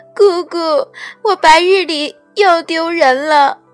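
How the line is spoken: Startled, tearful crying voice. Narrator (Chinese): 凤九抖的一怔，打了个激灵，阴大哭腔的

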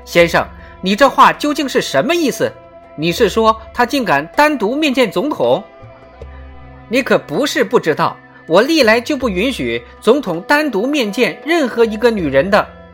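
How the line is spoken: Shrieking, strongly protesting. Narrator (Chinese): 林肯太太强烈抗议，她尖叫着喊道

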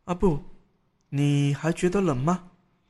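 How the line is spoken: Quiet. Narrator (Chinese): 葛玉小声说

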